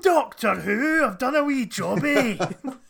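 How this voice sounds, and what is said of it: Combative Scottish Billy Connolly accent. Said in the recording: “a weird guy just doing a combative Scottish Billy Connolly accent.”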